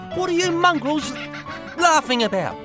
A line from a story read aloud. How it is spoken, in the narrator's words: He shouted